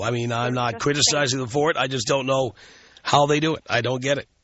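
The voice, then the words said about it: Stuffy, congested voice. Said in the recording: “do you have a cold? You sound kind of stuffy.”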